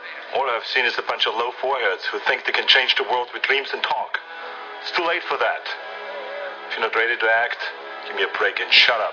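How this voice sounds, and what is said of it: Thick German accent. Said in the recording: “he has a thick, obviously, he has a thick German accent.”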